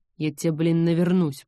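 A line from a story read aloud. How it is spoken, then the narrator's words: Strained growl. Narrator (Russian): прорычал он, с трудом поднимаясь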